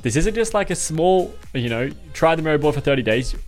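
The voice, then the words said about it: Fast speech, Australian accent. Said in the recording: “I talk so quickly and with an Australian accent”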